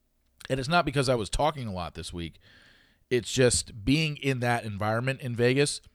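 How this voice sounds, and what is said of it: Slightly fried, sore-throated voice. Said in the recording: “you can tell my voice is a little bit fried ... my throat's a little sore”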